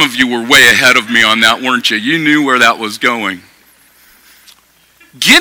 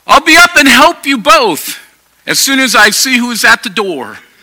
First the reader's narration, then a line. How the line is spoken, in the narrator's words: she yelled